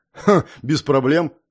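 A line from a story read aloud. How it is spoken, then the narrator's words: Hmphing. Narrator (Russian): хмыкнул я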